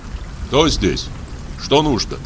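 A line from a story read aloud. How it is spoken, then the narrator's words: Plain. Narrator (Russian): спросил я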